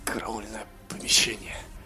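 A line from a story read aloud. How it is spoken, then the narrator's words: Mumbling. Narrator (Russian): пробормотал наш герой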